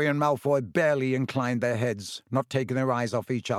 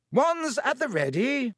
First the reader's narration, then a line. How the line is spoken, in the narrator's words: shouted Lockhart